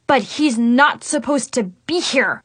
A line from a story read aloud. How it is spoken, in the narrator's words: I spat